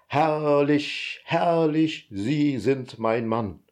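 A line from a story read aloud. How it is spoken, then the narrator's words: Enthusiastic roar. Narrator (German): brüllte enthusiasmiert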